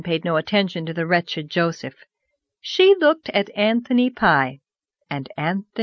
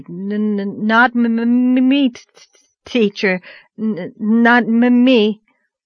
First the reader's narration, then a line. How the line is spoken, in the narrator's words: Joe Sloane felt responsible, but stuttered out wildly